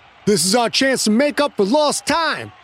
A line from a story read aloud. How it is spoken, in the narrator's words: Pine said in his ringing tone of command